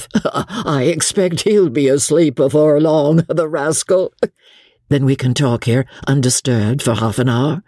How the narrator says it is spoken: Jellyband with a laugh

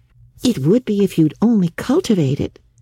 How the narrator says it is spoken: said Anne cheerfully

